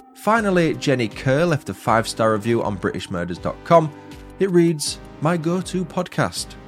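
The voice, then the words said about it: Northern English accent. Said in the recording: “as a fellow Northerner, I find your accent an easy listen”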